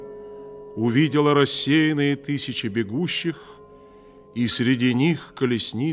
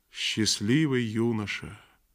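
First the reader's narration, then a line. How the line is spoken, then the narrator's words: Quiet voice. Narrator (Russian): произнесла она тихим голосом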